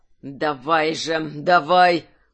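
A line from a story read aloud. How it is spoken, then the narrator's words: Through gritted teeth. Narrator (Russian): процедил Гржак сквозь зубы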